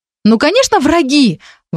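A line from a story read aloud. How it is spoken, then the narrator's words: Exclamation. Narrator (Russian): воскликнула Вика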